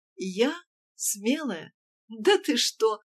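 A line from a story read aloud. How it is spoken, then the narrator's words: Hearty laughter. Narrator (Russian): расхохоталась от души Ася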